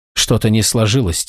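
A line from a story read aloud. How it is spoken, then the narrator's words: Quiet. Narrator (Russian): тихо сказала она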